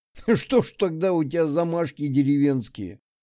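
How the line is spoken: Laughing. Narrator (Russian): засмеялся Огнев

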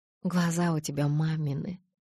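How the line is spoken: Calm even voice. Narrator (Russian): ровным, спокойным голосом заключила она

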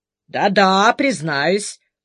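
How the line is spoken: Deafening laughter. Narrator (Russian): снова оглушительно расхохотался

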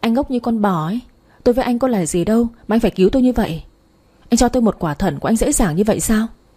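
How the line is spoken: Irritated snapping. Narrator (Vietnamese): Tôi bực quá gắt lên

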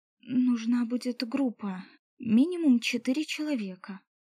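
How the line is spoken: Trembling voice. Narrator (Russian): дрожащим голосом сказала я ему

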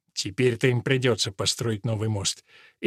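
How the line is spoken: Grumbling mutter. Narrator (Russian): Эдмунд пробурчал

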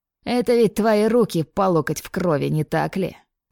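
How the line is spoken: Mocking tone. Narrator (Russian): Продолжал Рильф издевательским тоном

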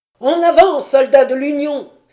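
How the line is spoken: Exalted cry. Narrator (French): s'écria-t-il avec exaltation

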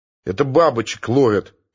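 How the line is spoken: Irritated reply. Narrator (Russian): раздраженно отозвался Евсеев

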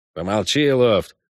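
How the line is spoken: Grumbling. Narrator (Russian): буркнул Шуйский

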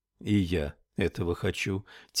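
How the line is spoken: Quiet. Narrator (Russian): тихо ответил Хови

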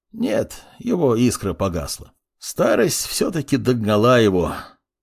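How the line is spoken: Sigh. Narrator (Russian): вздохнул Мурмур

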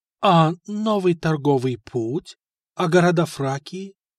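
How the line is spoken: Timid question. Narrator (Russian): робко спросил Стефан

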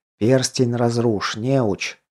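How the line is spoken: Whispered in ear. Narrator (Russian): шепнул на ухо страж

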